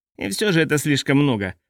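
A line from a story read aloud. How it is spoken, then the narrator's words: Pastor grumbling. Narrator (Russian): проворчал пастор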